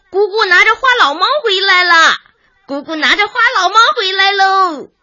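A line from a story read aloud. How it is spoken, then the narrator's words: Loud announcement. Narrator (Chinese): 全全…满屋子大声宣布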